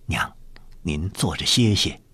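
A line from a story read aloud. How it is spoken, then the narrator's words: Soft, gentle. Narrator (Chinese): 尹继善轻声道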